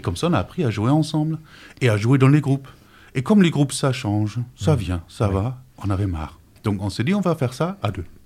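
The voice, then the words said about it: German accent speaking French. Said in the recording (French): “cet accent, il vient de où ? ... je suis allemand ... c'est ça qui explique cette voix”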